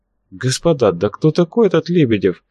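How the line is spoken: Innocent questioning tone. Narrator (Russian): самым невинным тоном, полагавшимся на его взгляд новичку, спросил Ростислав

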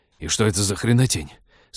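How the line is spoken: Fierce hiss. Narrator (Russian): свирепо прошипел Тед

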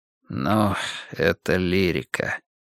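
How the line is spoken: Sighing. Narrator (Russian): вздохнул Нуржан

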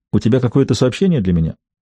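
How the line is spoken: Unsmiling, businesslike inquiry. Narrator (Russian): без улыбки и деловитым тоном осведомился

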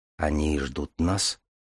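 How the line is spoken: Quiet question. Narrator (Russian): тихо спросил Дар

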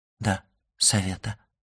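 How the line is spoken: Dejected voice. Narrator (Russian): упавшим голосом отвечала госпожа Данглар

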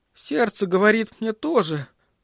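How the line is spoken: Choked out through tears. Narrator (Russian): выдавил он сквозь слезы

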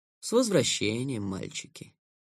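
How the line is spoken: Plain. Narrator (Russian): сказал Герт

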